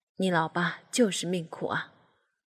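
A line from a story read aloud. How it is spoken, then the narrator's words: Father, long sigh. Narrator (Chinese): 唉，爸爸长叹了一口气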